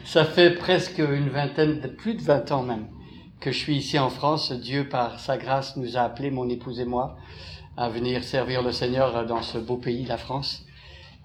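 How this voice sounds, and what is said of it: Québécois French accent. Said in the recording (French): “mon accent n'est pas de ce terroir-ci, ça vient d'outre-Atlantique, c'est un accent, si vous voulez repérer, c'est québécois”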